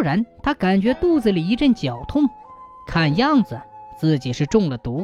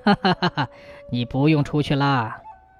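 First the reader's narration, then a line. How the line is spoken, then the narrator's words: Loud hearty laughter. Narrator (Chinese): 刘知县哈哈大笑地说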